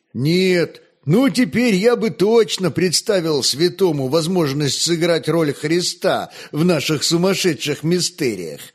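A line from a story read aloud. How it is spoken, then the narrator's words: Joyful exclamation. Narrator (Russian): радостно воскликнул Михаил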